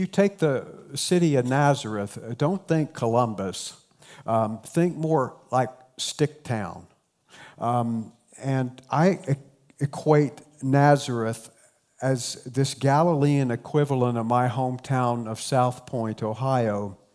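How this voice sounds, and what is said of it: Appalachian southern Ohio accent. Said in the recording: “Very strong Appalachian culture. You could probably tell that already by my accent.”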